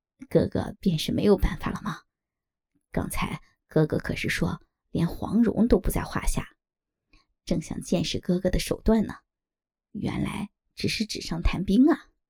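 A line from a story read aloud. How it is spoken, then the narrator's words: Laughing. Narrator (Chinese): 黄蓉笑道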